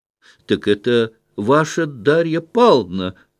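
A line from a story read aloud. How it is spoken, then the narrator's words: Exclaimed. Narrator (Russian): воскликнула Марья Тимофеевна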